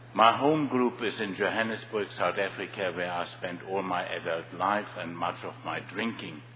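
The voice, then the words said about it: Strong German accent in English. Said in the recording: “I speak English with a strong German accent”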